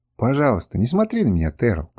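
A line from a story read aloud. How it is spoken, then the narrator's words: Mutter. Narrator (Russian): пробормотала она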